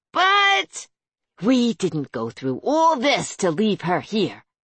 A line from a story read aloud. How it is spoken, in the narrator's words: Nora hissed